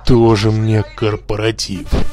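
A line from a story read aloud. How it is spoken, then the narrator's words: Angry whisper. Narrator (Russian): злобно прошептал Гнутый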